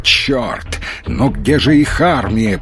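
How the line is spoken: Growling. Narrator (Russian): прорычал Маломальский

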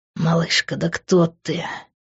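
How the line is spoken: Moaned. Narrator (Russian): простонал Грант

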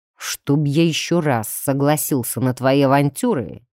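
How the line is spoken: Through gritted teeth. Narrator (Russian): процедил он уже нормальным языком

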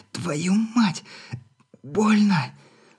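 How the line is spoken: Groaning wheeze. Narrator (Russian): Со стоном просипела она

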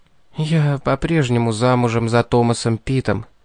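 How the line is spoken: Whispered. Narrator (Russian): прошептала она

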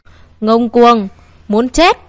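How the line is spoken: Group roaring. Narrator (Vietnamese): Cả ba người của Nguyên Thận Môn gầm lên

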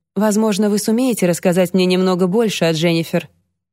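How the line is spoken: Soft question. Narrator (Russian): мягко спросила Алексия

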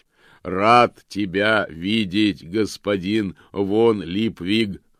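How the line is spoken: Joyful booming voice. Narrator (Russian): радостно прогремел он

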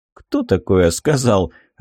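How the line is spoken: Laughing. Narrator (Russian): рассмеялся командир

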